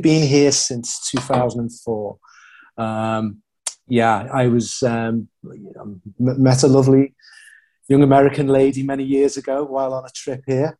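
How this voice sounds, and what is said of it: Cool-sounding accent. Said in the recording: “everything you say sounds cool ... it's just a cool accent”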